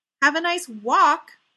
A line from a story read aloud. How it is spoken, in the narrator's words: Ray shouted after them